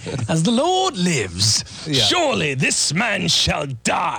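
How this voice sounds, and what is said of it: Formal British accent. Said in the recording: “He has a British accent, too. ... very, very formal, very Arthurian in his pronouncement”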